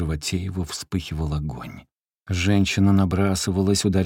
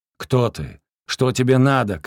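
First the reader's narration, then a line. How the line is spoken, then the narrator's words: Shouting. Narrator (Russian): кричал Распутин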